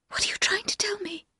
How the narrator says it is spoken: whispered

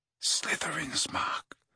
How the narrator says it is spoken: he said quietly

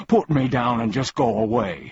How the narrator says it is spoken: he pleaded

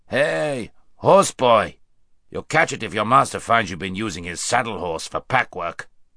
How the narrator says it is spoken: with a rough laugh, saying

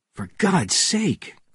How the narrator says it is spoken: cried Bourne

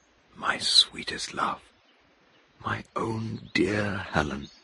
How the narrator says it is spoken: he whispered

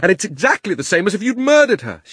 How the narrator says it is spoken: shouted Diggory

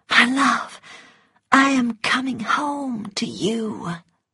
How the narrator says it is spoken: crying and laughing, she whispered

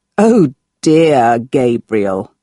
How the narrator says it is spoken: Marco laughed

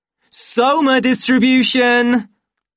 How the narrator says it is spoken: shouted a loud voice

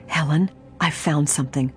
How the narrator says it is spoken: she whispered hoarsely

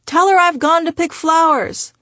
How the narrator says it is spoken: I often hear him yell in the background

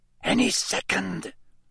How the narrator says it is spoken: Lee Jordan whispered

